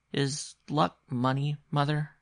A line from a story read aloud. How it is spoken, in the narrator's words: he asked rather timidly